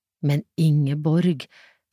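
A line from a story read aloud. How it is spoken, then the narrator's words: Despairing. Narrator (Norwegian): sa Reidun fortvilet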